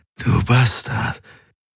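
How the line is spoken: Triumphant croak. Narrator (German): krächzte er triumphierend

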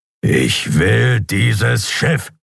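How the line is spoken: Growled. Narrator (German): knurrte er

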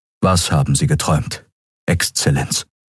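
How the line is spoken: Plain question. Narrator (German): fragte er

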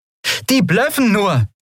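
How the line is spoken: Called out. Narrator (German): rief Endriel

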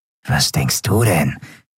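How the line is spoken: Rough voice. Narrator (German): gab Grau mit rauer Stimme zurück

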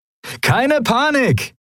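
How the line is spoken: Cheerful calling out. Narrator (German): rief Sephiron seinen Kumpanen in bester Laune zu

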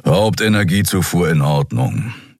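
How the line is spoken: Growl. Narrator (German): knurrte Keru

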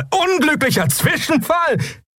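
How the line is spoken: Bearded man, laughing. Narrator (German): Der bärtige Mensch lachte auf

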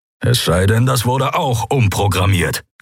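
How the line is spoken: Growl. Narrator (German): knurrte Keru

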